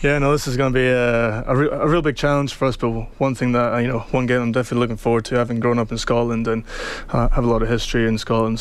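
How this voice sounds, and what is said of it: Scottish accent. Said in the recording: “people can already hear your accent”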